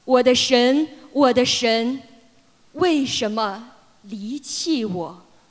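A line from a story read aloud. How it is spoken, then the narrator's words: Loud cry. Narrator (Chinese): 耶稣大声喊着说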